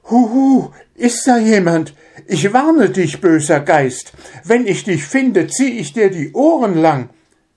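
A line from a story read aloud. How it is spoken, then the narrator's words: Very pitiful call. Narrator (German): rief mit sehr kläglicher Stimme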